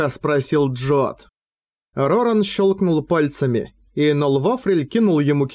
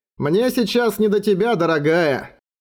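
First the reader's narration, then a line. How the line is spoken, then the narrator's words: Loud. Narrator (Russian): громко сказал Джот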